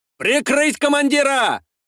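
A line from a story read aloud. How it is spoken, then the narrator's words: Shouting. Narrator (Russian): прокричал Елисей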